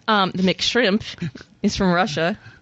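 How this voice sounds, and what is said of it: Put-on Scottish accent. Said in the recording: “I said that with an Irish accent ... No, that was Scottish.”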